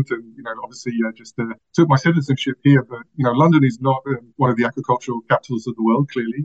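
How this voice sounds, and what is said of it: London English accent. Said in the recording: “I'm actually from London. You can probably tell from the accent.”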